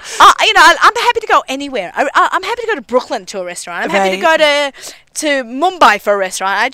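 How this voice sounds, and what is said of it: Australian-accented English. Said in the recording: “Aussies have the travel bug ... through your accent ... Through my accent”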